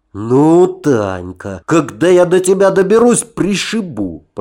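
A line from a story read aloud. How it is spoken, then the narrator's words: Hiss. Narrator (Russian): прошипел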